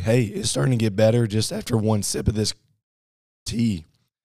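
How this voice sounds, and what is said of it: Hoarse, strained voice. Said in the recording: “Started losing my voice yesterday”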